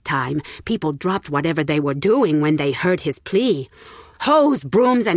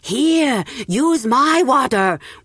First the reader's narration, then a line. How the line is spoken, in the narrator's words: one man shouted